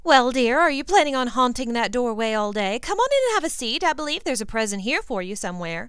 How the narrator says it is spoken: Molly Weasley called out

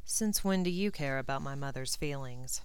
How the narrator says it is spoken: he asked dryly

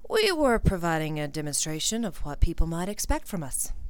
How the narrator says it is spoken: Malfoy slotted in smoothly

